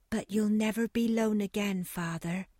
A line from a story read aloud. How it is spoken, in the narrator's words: said Eppie tenderly